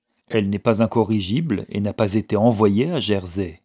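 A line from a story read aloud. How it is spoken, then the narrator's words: Curt. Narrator (French): dit Roderick sèchement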